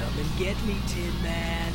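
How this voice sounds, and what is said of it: Arnold Schwarzenegger-style accent. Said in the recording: “That's the Arnold accent.”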